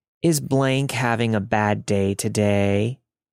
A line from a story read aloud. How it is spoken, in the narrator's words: in that weird baby talk tone, as if trying to excuse his disgusting actions